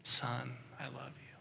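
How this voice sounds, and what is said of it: Whispered words. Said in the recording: “this huge whisper ... I want you to hear that whisper”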